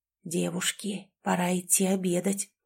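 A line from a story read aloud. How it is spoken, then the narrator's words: Whistling voice. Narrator (Russian): произнесло оно свистящим голосом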